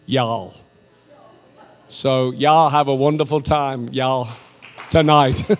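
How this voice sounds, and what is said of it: Weak put-on American Southern accent. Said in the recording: “that's about as far as I'm going to get with my American accent.”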